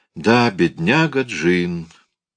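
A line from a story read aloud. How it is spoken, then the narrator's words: Sigh after a pause. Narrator (Russian): вздохнул после приличествующей случаю паузы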